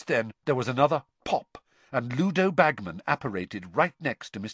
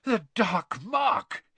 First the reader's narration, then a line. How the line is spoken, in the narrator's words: panted